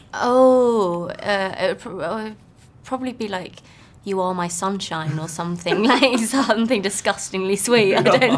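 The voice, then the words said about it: British accent. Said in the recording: “I love her accent. ... I'm British. ... I love British accents.”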